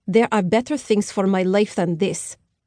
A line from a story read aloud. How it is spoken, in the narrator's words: the black-haired woman said in a heavily accented voice